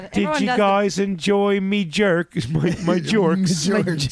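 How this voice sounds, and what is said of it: Put-on British accent. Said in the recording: “That's my impression of Kelly. I'm not an impression person. ... best British accents in this room”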